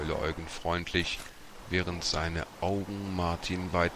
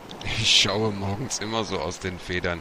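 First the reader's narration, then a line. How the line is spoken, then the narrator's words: Giggling. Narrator (German): kicherte Eugen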